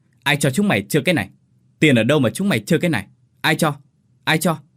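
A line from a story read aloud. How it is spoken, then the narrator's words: Shouted. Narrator (Vietnamese): ông Tần quát lên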